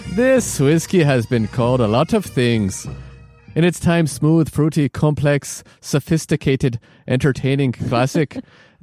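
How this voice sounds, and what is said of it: Deliberately bad put-on Scottish accent. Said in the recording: “I'm going to try to read this in the worst Scotch accent or Scottish accent ever”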